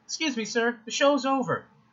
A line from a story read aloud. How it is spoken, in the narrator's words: the usher says in a voice reminiscent of the squeaky-voiced teenager from The Simpsons